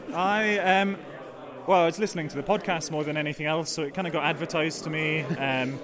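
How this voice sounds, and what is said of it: Scottish accent. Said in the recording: “you've come all the way from Scotland. You can detect the accent.”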